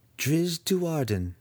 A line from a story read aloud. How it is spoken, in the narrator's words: she purred